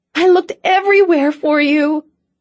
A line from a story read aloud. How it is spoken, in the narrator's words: she cried